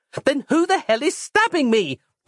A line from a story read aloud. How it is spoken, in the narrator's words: Roz cried